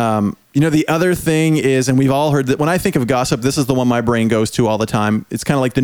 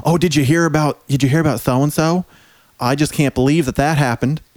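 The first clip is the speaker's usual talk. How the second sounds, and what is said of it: Put-on Southern accent. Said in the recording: “they have a southern accent.”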